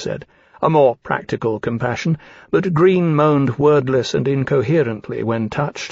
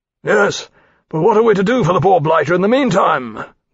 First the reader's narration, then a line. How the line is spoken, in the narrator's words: Granby exclaimed